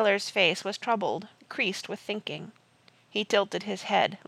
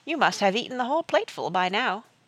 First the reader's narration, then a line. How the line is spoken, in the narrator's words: said Jane brightly, to stop herself listening to the sea